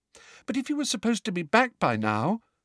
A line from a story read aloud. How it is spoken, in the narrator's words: said Hermione in a small, anxious voice